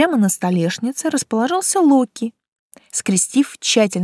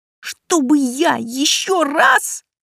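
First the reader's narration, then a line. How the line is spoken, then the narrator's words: Hissed. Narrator (Russian): прошипел мой помощник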